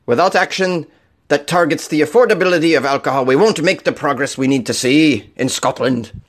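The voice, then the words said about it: Put-on Scottish accent. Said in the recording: “Is that is that a Scottish accent that you can get behind?”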